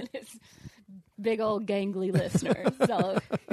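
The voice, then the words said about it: Imitates another person's voice. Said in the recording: “was that your Shaq impersonation or is that your wisdom teeth?”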